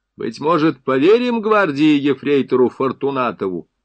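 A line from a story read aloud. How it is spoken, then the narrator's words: Loud question. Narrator (Russian): Сафронов громко спросил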